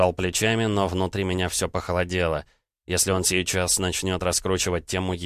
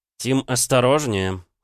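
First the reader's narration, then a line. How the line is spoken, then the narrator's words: Cold reply. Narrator (Russian): холодно ответил я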